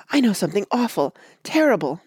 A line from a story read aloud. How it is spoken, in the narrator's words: Betsy cried